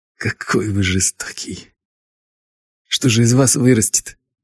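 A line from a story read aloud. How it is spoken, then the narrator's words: Trembling voice. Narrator (Russian): Дрогнувшим голосом сказал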